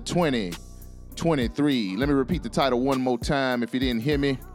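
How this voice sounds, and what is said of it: Southern American accent. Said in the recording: “my southern accent muffled and mushed up all the words”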